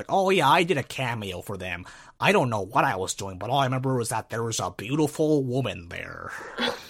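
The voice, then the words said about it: Stan Lee impression, old man voice. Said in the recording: “my Stan Lee impression ... That's a very Stan Lee thing to say. That's a very old person thing to say.”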